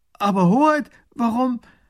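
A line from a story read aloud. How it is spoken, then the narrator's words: Calling out. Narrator (German): Der erste Minister ruft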